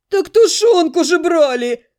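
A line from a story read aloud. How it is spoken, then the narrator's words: Hungry groan. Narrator (Russian): простонал кто-то из ребят, явно голодный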